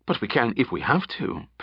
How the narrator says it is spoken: Penn added quickly

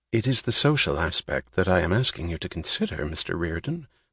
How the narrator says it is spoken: the man said softly

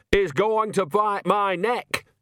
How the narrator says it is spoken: shouted Nanny

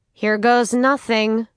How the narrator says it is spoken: she said loudly

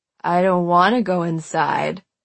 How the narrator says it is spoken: he slurred

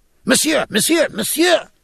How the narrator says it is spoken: cried Dr

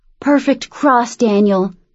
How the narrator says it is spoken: groaned

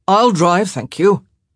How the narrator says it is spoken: Benedict said sharply

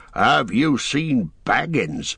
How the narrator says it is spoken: he asked in a queer voice

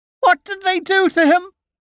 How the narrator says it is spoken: She screams

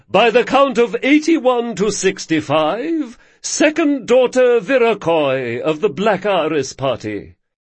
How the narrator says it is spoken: boomed Sedelkis

